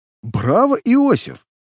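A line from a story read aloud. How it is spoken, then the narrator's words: Laughing. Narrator (Russian): засмеялся Ник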